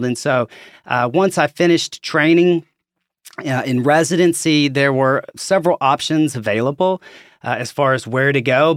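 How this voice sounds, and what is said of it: Southern American accent, Arkansas. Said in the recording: “As you can probably tell from my accent, I'm from Arkansas”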